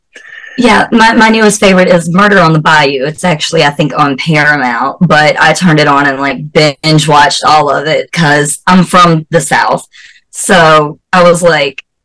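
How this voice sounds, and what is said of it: Southern American accent. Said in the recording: “you have the cutest southern accent”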